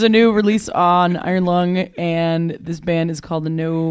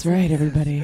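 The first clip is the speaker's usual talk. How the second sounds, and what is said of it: Silky radio announcer voice. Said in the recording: “Using our silky radio voice. ... Very silky.”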